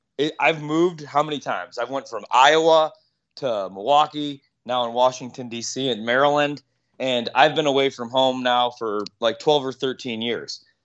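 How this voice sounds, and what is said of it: Chicago accent. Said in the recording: “Everybody always talks about my accent, like Chicago.”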